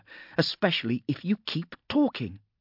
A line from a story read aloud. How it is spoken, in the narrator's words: snapped Viola